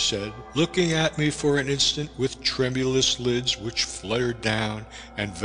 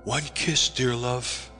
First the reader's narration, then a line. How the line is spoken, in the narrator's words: whispered